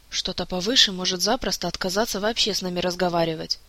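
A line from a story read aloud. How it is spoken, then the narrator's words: Whispering court mage. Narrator (Russian): также шепотом ответил его придворный маг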